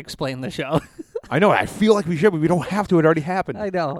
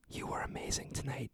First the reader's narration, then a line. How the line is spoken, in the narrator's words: he whispered gently in his own ear